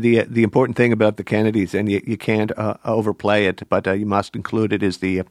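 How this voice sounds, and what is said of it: Usual voice. Nothing is said of it.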